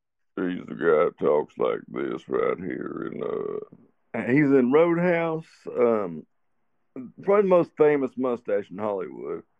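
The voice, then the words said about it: Deep-voiced Sam Elliott impression. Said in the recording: “trying to do a Sam Elliott impression lately, and it's a lot harder than I thought ... I've got the voice for it. Like, I've got a deep voice”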